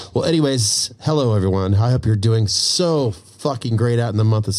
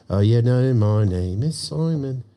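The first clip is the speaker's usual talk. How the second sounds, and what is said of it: Put-on British accent. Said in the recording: “Got to have a little bit of a British accent in there with it”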